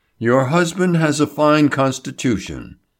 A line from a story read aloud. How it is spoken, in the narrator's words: he said soothingly